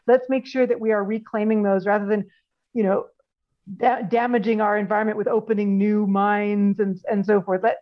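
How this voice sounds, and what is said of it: Canadian accent. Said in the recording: “as people will be able to tell from your accent, you're Canadian”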